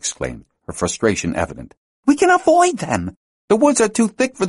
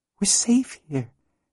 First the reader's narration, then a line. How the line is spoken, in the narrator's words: she said in a small voice